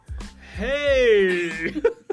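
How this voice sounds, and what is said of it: Loud yell. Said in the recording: “Is that too loud of a yell? ... he's yelling at me”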